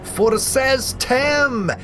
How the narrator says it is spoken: yells

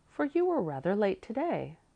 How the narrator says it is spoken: she said kindly

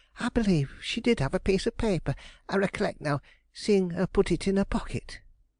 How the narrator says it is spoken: she suddenly exclaimed

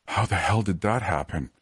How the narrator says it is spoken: gasped

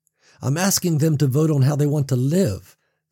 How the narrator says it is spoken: Sam countered, his voice rising with a defensive edge

